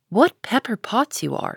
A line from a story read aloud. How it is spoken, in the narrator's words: sighed Joe